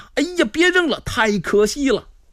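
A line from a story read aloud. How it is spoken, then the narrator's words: Two voices shouting in unison. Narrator (Chinese): 从震惊中醒过来呀、啊，两个人不约而同齐声喊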